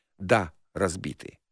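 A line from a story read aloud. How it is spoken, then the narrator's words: Grim reply. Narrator (Russian): Спендий мрачно ответил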